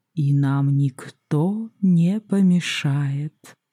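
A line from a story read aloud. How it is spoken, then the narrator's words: Purring voice. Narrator (Russian): мурлыкая произнес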